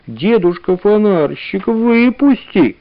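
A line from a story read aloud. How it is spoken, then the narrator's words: Sweet little voice. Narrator (Russian): лисичка сейчас же встала на задние лапки и сказала умильным голоском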